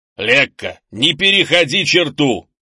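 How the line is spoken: Growl. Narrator (Russian): зарычал Крис

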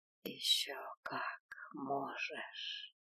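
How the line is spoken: Heartfelt whisper. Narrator (Russian): проникновенно прошептал

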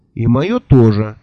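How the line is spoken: Angry objection. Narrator (Russian): сердито возразил я

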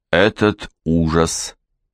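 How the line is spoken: Faltering, trembling voice. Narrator (Russian): Князь запнулся и добавил дрогнувшим голосом

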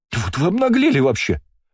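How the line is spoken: Shrill squeal. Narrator (Russian): взвизгнула Ширли

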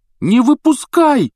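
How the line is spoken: Shouting. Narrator (Russian): крикнул Рон

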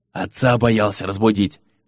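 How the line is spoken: Whispered. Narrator (Russian): шепотом ответил Ули

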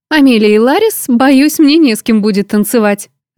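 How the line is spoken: Laughing girlfriend. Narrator (Russian): рассмеялась подружка

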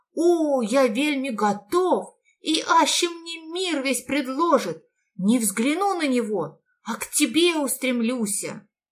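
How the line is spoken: Joyful exclamation, merchant. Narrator (Russian): Купец с радостью воскликнул

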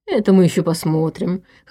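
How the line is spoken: Short laugh. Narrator (Russian): хохотнул Шумский

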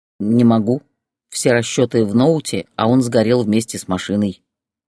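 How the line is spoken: Calm reply. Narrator (Russian): спокойно ответил Борис

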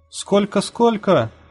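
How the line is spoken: Shouting. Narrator (Russian): крикнул кто-то

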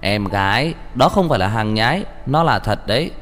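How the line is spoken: Stunned, then loud laugh. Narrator (Vietnamese): Anken sững sờ, sau đó cười to hai tiếng

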